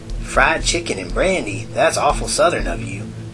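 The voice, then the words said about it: Fake Southern accent. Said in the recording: “doing a fake southern accent”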